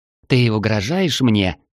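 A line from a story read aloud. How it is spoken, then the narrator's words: Hiss. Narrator (Russian): зашипела Мелкая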